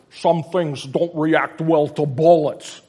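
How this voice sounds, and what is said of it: Imitates another person's voice. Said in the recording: “my Sean Connery impersonation ... It's pretty good, isn't it?”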